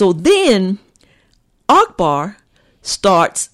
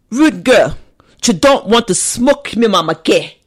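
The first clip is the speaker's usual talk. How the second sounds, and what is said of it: Imitates another person's accent. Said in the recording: “mocking Spice's accent ... That was pretty good. ... I've been practicing.”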